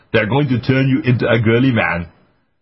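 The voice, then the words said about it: Put-on accent imitating another person. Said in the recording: “as Arnold Schwarzenegger says, and I'll change my accent”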